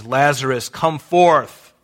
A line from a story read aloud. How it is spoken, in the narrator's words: in a loud voice